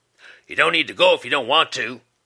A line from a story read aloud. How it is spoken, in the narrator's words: Moody snapped back